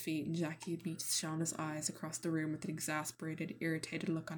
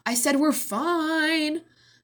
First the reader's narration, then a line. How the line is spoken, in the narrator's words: Nat shouts again